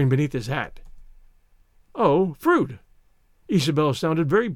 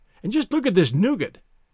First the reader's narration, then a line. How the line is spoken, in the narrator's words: he cried ecstatically